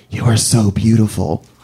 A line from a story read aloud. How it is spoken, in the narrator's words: he puts his mouth close to my ear, and he whispers